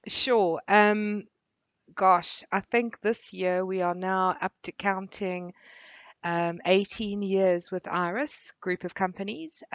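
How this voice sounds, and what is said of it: South African accent. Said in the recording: “your accents, not necessarily from the UK, and that you've come from South Africa”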